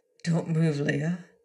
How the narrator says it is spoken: he murmured

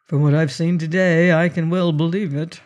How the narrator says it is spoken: said Mr

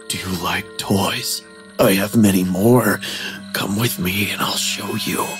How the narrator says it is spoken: He whispered

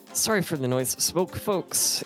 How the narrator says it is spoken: wheezes

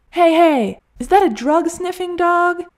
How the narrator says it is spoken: yelled

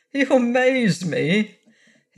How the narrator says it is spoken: his captor chuckled

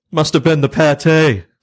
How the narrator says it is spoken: shouting

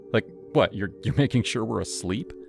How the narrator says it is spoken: Leela laughed, a high tinkling sound

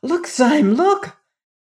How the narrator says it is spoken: He cried

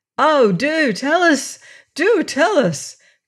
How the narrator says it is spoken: cried they all

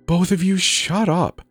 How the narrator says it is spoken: hissed out excitedly

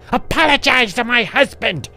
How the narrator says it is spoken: she screamed as loud as she could

